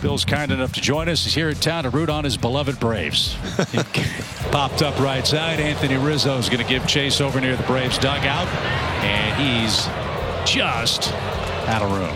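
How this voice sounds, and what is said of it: Sports announcer voice. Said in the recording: “Sounds like a sports announcer voice.”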